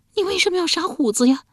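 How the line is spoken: Muffled tearful voice. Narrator (Chinese): 这声音是透过指缝传出来的，且带着哭腔

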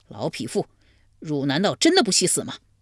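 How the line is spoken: Furious. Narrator (Chinese): 怀公见之大怒

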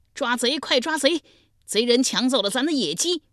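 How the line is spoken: Alarmed loud shout. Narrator (Chinese): 脚步声惊动了重耳，大声喊道

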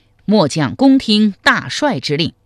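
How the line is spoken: Loud reply. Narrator (Chinese): 韩通高声应曰

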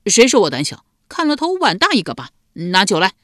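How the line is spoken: Angry, tipsy. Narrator (Chinese): 赖毛被激怒了……微醉的……道

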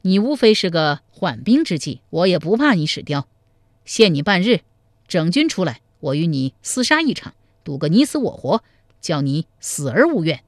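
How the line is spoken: Hearty laughter. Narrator (Chinese): 赵匡胤哈哈大笑说

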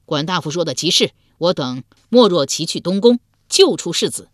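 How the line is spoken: Loud reply. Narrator (Chinese): 鲍叔牙之子鲍勇高声应道

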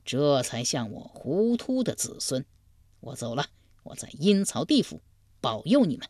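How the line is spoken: Old man laughing heartily. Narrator (Chinese): 老国舅大笑道

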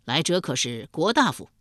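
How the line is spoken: Loud call. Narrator (Chinese): 梁尧弥忙趋前三步，挡在路中，高声叫道

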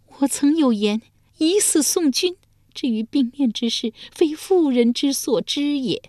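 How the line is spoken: With a long sigh. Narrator (Chinese): 遂长叹一声说道

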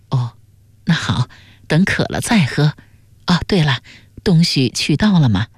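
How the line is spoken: Mother's soft loving question. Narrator (Chinese): 他娘仍满脸慈爱，柔声问道

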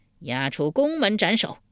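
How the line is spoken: Angry. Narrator (Chinese): 晋惠公一脸怒色道

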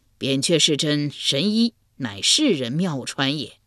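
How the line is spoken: Laughing. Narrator (Chinese): 秦越人笑道

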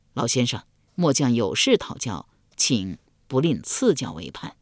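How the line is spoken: Low voice. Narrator (Chinese): 高黑低声说道

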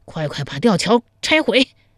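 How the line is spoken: Panting. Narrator (Chinese): 周兵……一边喘息一边说道

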